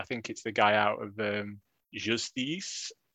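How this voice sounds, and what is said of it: Put-on French accent. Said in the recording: “That's my French impression.”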